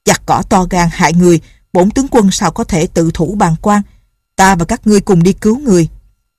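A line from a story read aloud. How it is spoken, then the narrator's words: Loud. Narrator (Vietnamese): Lệnh Hồ Xung lớn tiếng nói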